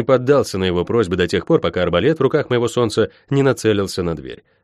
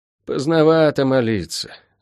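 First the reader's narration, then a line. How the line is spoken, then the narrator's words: Sighing. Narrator (Russian): вздохнул целитель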